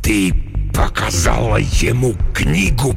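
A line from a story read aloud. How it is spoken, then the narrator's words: Hissing. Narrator (Russian): прошипел Декарнатус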